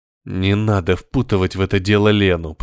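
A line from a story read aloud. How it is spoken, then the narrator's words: Through clenched teeth. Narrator (Russian): процедил Крест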